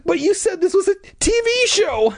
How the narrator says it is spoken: I stammered

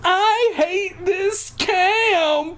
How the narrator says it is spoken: I screamed as if I were at Auschwitz

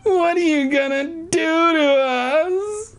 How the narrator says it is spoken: I cried

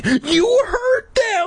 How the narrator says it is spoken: shrieked

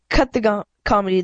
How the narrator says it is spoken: the shorter guy snarled

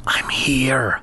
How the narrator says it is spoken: Lefty whispered back

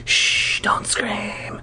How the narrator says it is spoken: my attacker whispered

